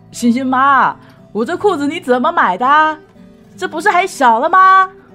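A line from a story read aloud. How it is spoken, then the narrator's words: Yelling. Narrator (Chinese): 对屋里嚷嚷说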